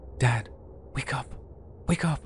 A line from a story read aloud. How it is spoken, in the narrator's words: my son ... whispering